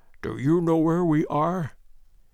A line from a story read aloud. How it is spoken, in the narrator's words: he whispered